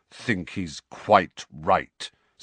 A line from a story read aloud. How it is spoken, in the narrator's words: said Sirius through clenched teeth